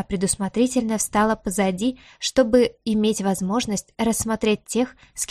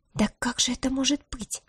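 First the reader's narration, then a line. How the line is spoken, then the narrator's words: Indignant breathless girl. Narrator (Russian): С возмущением выдохнула девушка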